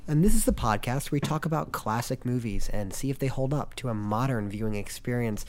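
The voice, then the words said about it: Deeper than normal, sick-sounding voice. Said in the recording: “my voice sounds deeper and sexier than normal, it's because I have a cold. ... Sounds worse.”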